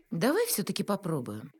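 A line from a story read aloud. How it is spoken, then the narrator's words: Cheerful suggestion. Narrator (Russian): бодро предложила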